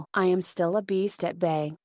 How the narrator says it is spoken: he said, in a low, hoarse voice

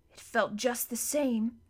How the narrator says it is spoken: said Edmund in a breathless voice

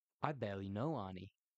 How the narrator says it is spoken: I said

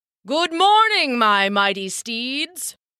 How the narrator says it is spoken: came a booming voice

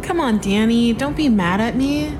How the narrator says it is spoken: she said in an overly cutesy tone

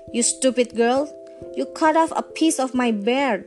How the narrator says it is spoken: the dwarf cried, most ungratefully

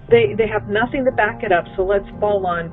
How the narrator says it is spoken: he snapped

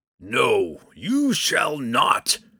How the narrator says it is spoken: Kemphana bellowed

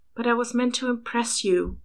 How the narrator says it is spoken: Louis sighed

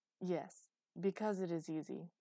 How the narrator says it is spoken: Z said

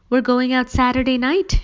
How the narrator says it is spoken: she answered brightly

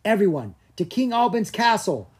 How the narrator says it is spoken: Gianna cried

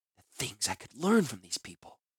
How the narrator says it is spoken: she whispered in amazement

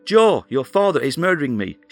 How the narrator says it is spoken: shouted as she struggled to ward off her husband

